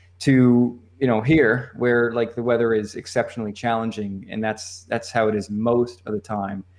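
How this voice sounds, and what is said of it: Slight Eastern US accent. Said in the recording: “he's still got a little of his, you, you know, you know, his Eastern accent”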